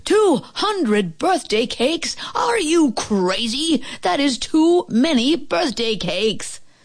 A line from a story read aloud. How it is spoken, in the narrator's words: The man at the bakery yelled